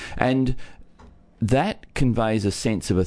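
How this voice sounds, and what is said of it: Usual voice. Nothing is said of it.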